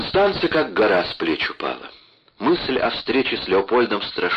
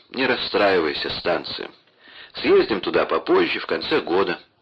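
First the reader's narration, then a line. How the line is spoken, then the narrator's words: Tender explanation. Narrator (Russian): объяснил и добавил ласково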